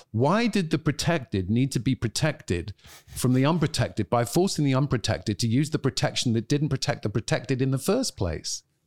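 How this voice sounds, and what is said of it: British accent. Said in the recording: “with your accent, that's really good... it helps with the British accent.”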